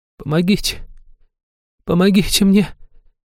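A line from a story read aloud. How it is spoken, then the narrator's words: Woman moaning into whimper. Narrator (Russian): Простонала женщина, срываясь в тонкое хныканье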